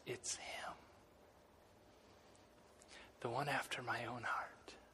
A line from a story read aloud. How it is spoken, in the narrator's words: God whispers